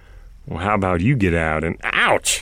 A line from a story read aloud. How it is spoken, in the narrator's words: Lila laughed again